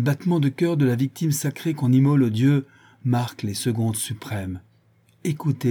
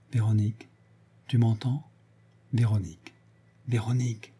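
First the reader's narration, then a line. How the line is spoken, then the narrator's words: Very quiet. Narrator (French): Il dit, tout bas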